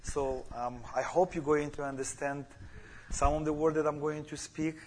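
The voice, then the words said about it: Non-native English accent. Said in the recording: “everybody understands my accent. I don't know. It's I'm just strange for you.”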